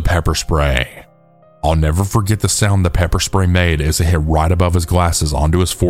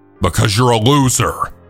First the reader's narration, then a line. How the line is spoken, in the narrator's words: I shouted back with conviction